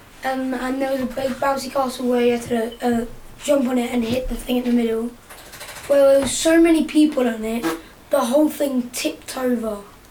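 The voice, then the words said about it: Hoarse, strained voice. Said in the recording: “Is that why you've lost your voice?”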